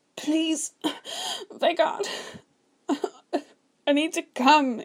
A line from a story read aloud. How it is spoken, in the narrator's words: he sobbed